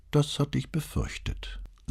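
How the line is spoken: Sighed. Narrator (German): seufzte Brunetti

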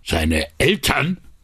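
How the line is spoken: Gruff outburst, friendliness gone. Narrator (German): polterte Marcolini los, und seine Stimme hatte mit einem Schlag alles Leutselige verloren

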